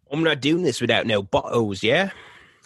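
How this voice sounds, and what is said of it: Attempted Australian accent, sounds English. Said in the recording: “That's my Australian accent. It sounds very English.”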